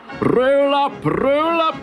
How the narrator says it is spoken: he shouted

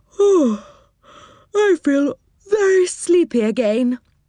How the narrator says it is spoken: said Moonface, yawning

